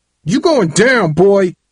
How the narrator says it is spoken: Tyrae screamed

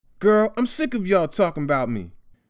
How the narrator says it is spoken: he snapped, unable to control himself

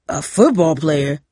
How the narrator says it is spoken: Cooper bellowed

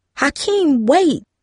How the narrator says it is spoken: Darcy cried

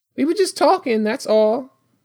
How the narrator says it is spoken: Jamie said, her voice a bit high and unnatural

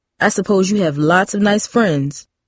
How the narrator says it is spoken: he said

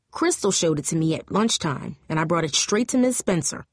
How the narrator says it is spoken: Coach Seville explained, her voice tense and serious as if it were under great stress

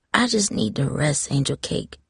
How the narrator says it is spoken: Grandma said softly

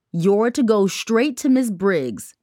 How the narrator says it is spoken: the secretary barked, barely looking up from her computer

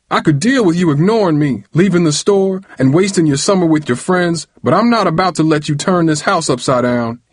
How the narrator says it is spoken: hollered

